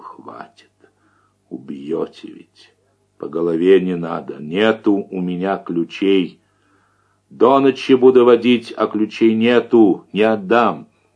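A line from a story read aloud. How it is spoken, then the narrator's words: Muffled, serious pleading. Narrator (Russian): Он уже не шутил, бледнее, глухо просил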